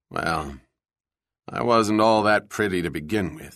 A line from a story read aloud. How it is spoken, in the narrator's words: thought grimly